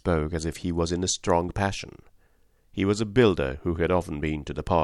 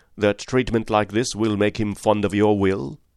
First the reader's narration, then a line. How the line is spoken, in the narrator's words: said Master sternly